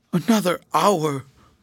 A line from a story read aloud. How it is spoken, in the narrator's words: Mordaunt groaned